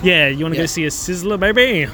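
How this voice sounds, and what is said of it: Put-on old-timey accent. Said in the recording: “That's my history accent.”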